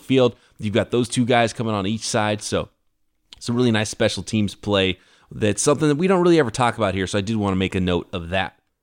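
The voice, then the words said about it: Voice starting to go hoarse. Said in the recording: “I feel like I'm starting to lose my voice.”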